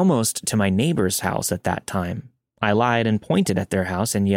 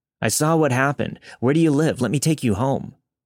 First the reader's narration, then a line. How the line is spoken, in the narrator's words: yelled